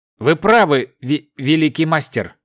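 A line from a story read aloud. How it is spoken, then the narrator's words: Stammering frightened young giant. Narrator (Russian): заикаясь, ответил побледневший молодой великан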